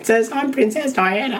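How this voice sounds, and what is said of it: Put-on Australian accent. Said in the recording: “That was an Australian.”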